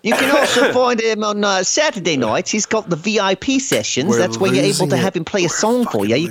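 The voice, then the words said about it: Put-on accent. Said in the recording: “have you started following through on this accent? ... You're not liking the accent?”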